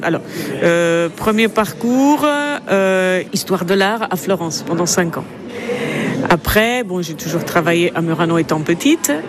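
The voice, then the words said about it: Slight Italian accent. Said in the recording (French): “Vous avez un petit accent italien.”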